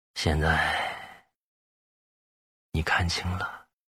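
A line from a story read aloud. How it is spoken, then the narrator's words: Low voice. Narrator (Chinese): 对着周宝强，低声道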